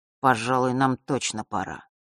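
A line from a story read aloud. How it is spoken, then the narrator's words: Boy speaking dully. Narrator (Russian): глухо произнес мальчик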